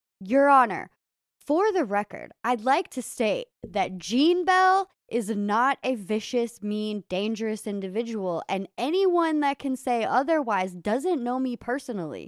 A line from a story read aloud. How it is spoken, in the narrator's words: he yelled out